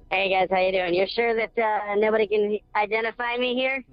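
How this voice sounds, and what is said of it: Disguised voice-changer voice, sounds sinister. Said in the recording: “you sound like a serial killer ... Your phone line is being run through the voice changer”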